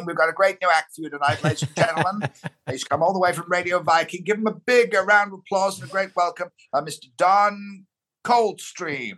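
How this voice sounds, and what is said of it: Hughie Green-style showbiz compere voice. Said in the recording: “the Hull accent and all that persona just vanished. And instantly he sort of became Huey Green.”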